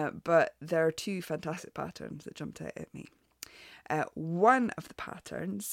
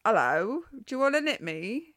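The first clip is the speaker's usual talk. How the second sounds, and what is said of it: Put-on Cockney accent. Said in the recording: “I don't know why they have a Cockney accent or a Mockney accent.”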